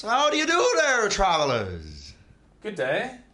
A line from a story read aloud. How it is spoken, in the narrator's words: One of them shouts